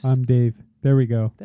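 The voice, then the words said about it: Deep bassy AM radio voice. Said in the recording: “I'm working on my radio voice ... I can't go deeper. Maybe I just add some bass ... Give yourself some bass, man. Do bass ... I'm just going to go all bass like this ... Like an AM radio host”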